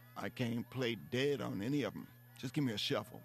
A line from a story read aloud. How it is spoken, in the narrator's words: Rufus said